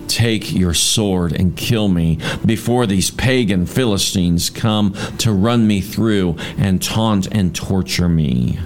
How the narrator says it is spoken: Saul groaned to his armor bearer

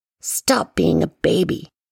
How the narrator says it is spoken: hissed

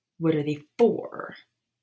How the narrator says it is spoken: Harry snapped

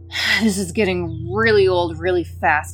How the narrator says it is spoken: growled

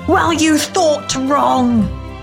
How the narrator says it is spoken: Dan roared back

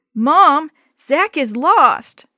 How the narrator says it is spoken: Dee Dee wailed

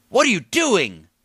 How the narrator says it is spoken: Mason and Seth shouted in unison

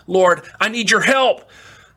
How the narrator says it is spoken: screamed

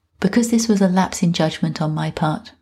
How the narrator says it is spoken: Marie said

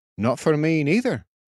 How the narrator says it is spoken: said the fisherman

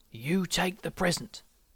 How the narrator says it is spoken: whispered granddad

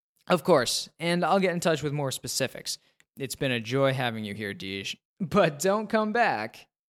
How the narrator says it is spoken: he laughs

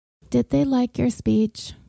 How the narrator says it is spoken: asked in a drowsy voice

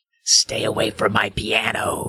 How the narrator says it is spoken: rasped

